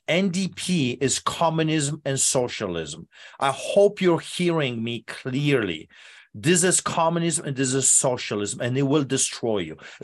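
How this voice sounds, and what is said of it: Speaks with a noticeable accent. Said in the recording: “listen to my accent.”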